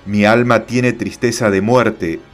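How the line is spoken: Plain reply. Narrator (Spanish): respondió Jesús

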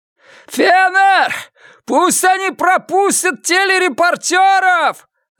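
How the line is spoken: Yelling. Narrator (Russian): завопил он

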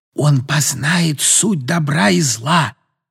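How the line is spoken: Whisper. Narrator (Russian): прошептала

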